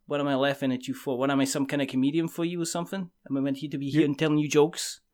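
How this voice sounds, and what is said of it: Put-on New Jersey accent. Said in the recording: “Your Jersey accent is better than my whatever the hell I did”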